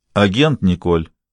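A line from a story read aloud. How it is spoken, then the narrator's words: Cold, demanding. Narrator (Russian): холодным и требовательным тоном произнес Гамаш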